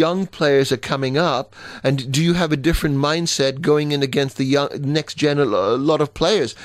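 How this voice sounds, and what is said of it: Usual voice. Nothing is said of it.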